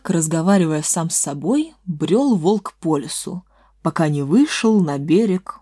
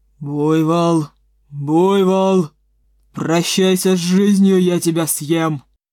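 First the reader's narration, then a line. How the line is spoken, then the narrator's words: Growling. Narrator (Russian): прорычал волк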